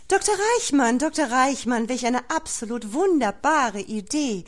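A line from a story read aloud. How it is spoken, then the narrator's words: Calling across a foyer. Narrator (German): rief Frau von Plitzewitz ebentreu durch das Foyer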